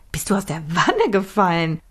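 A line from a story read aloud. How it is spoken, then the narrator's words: Laughing. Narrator (German): lachte Millie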